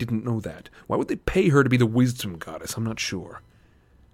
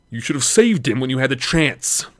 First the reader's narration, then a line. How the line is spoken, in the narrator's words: Hermes growled